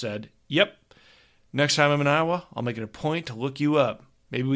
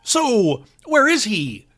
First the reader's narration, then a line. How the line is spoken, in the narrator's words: Justin asked impatiently